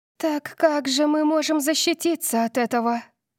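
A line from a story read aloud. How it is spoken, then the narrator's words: Fearful pleading. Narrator (Russian): Взмолилась София, ее глаза округлились от страха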